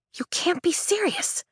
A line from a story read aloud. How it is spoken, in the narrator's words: I whisper in a hiss